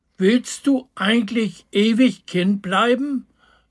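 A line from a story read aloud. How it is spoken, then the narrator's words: Asking, several voices. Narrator (German): fragten die Freunde von Opa Fröhlich immer wieder einmal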